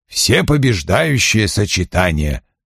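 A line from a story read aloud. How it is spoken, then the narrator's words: Mumbling. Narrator (Russian): пробормотал Вульф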